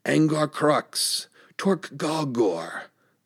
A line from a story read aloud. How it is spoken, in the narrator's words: The fire-robed man's voice boomed louder than the thunder